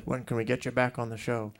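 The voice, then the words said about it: Poor Garrison Keillor impression. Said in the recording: “That's a terrible Garrison impersonation”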